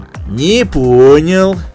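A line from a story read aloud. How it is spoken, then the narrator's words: Menacing drawl. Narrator (Russian): угрожающе протянул толстяк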